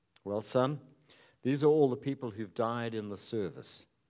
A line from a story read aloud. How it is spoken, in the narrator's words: replied the pastor